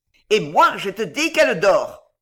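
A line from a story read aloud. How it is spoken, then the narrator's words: Sneering snicker. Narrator (French): ricana Belgodère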